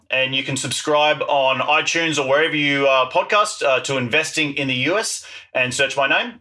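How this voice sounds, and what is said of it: Noticeable non-American accent. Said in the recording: “you were listening to the accent”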